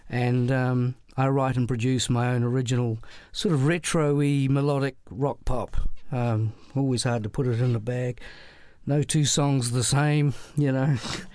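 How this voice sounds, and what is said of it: New Zealand accent. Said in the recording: “I live in Auckland, New Zealand, hence the accent.”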